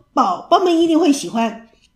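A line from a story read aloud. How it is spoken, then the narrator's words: Shouting. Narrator (Chinese): 她大叫着，说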